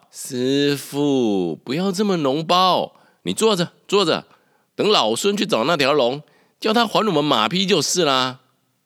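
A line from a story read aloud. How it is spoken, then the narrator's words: Shouting. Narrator (Chinese): 发声喊道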